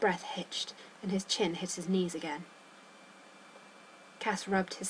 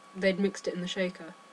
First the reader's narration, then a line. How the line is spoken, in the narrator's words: Cass asked calmly